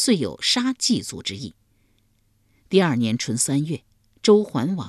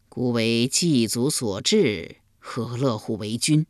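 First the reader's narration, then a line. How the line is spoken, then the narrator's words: Gloomy sigh. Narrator (Chinese): 立公郁郁不乐，叹道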